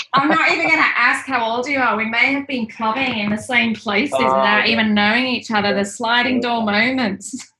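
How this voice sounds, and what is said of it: Leeds English accent. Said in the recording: “I'm hearing your accent. I didn't know it was Leeds.”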